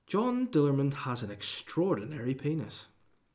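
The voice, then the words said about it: Reading in a posh voice. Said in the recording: “I'll read it in a posh voice.”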